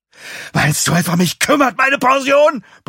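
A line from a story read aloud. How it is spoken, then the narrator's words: Roared. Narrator (German): brüllt er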